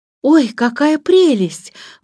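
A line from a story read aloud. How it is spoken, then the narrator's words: Exclaimed. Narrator (Russian): воскликнула Джейн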